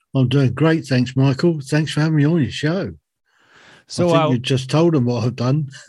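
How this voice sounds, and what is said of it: Strong British accent. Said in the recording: “I see that you have a strong British accent”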